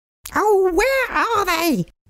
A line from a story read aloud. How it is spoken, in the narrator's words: she cried